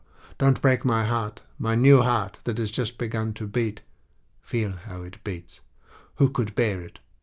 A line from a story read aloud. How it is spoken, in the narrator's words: cried low